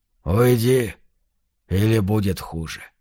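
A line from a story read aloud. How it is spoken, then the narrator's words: Calm. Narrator (Russian): сказал спокойно цыган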